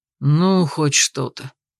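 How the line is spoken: Mildly displeased. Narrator (Russian): Не слишком довольно выдал дракон

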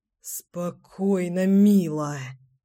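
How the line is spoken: Aroused groan. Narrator (Russian): простонал Семен, чувствуя, как вновь начинает возбуждаться

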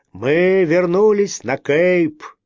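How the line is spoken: Shouted. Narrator (Russian): мой отец кричал

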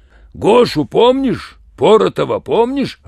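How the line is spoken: Growling. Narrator (Russian): рычал он

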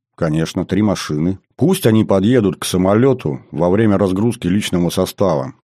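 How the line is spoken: Plain. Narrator (Russian): сказал я

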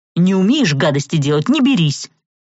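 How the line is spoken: Snapping. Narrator (Russian): огрызнулся

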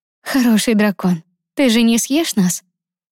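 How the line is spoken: Quiet and gentle. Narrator (Russian): Лиза старалась говорить тихо и ласково, чтобы не нервировать его

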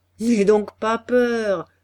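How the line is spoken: Laughing reply. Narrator (French): répondait le peintre en riant

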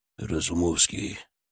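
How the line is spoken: Quiet. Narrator (Russian): тихо сказал он

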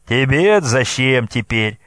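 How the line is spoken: Loud laughter. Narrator (Russian): захохотал Брязга

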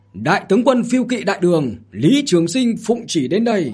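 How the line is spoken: Loud shout. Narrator (Vietnamese): lớn tiếng hét

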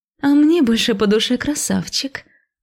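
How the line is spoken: Purring, flirtatious woman. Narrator (Russian): мурлыкнула блондинка

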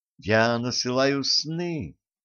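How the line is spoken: Soft explanation. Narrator (Russian): мягко пояснила Ванесса

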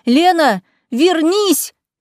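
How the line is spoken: Shouted from afar. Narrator (Russian): кричали мне с поля

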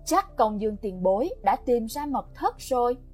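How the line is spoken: Smiling. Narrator (Vietnamese): Gã mỉm cười

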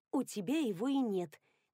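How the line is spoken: Soft inner whisper. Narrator (Russian): тихонько прошептал голос в голове

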